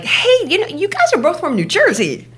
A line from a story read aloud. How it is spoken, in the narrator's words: our friend is chirping like